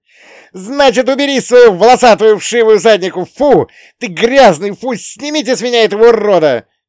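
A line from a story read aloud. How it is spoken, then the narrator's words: Shrieking. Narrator (Russian): Визжала Лина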